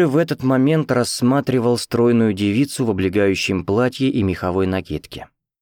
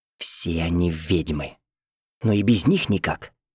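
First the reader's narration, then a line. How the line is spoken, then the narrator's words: Near whisper. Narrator (Russian): Роберт добавил почти шепотом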